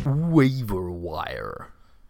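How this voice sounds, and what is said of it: Very bad put-on American accent. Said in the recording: “Yes, that is my very bad American accent.”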